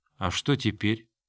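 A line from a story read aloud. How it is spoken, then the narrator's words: Quiet, exhausted. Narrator (Russian): подняла измученное лицо и тихо спросила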